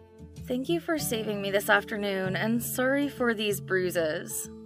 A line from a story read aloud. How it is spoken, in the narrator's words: she suddenly fell silent and mumbled